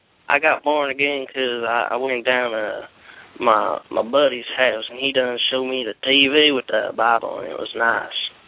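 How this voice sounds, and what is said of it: Thick Southern US accent. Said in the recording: “You got such a wonderful southern accent like me ... Yours is a little thicker than mine”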